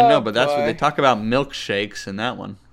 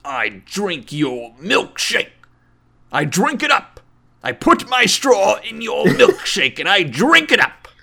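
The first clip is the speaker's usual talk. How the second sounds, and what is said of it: Good impression of another person's voice. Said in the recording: “It's a good impression.”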